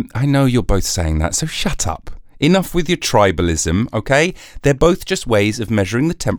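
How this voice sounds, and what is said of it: Usual voice. Nothing is said of it.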